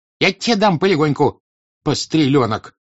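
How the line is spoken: Shouting. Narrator (Russian): крикнула Мавра Кузьминична

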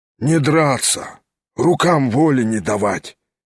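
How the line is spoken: Hoarse reply. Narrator (Russian): сипло отвечал помещик

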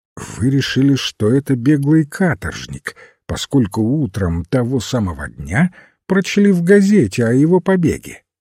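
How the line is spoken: Calm. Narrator (Russian): спокойно сказал священник

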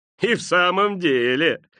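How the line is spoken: Laughing agreement. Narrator (Russian): смеясь, поддакнула миссис Дилбер

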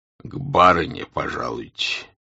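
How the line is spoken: Deep bass voice. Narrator (Russian): басом сказал лакей

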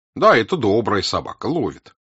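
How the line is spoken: Indifferent. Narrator (Russian): равнодушным голосом сказал Елагин

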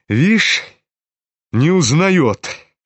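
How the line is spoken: Malicious sneering. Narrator (Russian): Злобно осклабился Рогожин

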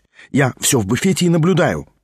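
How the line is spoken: Teasing mock-guilty whisper. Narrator (Russian): прошептал он с видом виноватого школьника, впрочем, нарочно подделанным, чтобы еще более ее раздразнить

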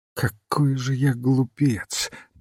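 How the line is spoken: Muttering. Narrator (Russian): бормотал он

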